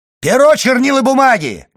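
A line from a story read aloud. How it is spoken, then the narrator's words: Shout. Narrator (Russian): крикнул в свою очередь Фернан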